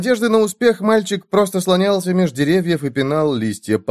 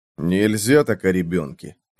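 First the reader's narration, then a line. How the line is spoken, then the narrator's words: Grumbling. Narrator (Russian): проворчал Джо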